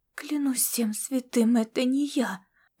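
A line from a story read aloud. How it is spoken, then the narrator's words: Whisper. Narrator (Russian): прошептала Масима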